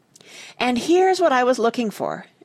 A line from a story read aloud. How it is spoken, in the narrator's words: exclaimed Joe